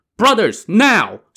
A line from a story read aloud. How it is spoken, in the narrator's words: Song Jiang shouted